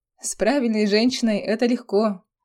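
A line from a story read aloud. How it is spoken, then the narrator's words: Proud good-natured laughing priest. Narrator (Russian): засмеялся поп с гордостью и добродушием семейного человека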